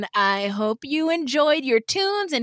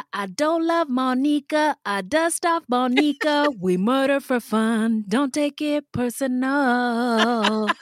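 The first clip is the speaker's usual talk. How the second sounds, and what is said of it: Imitates another person's singing voice. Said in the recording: “that's my SZA impression”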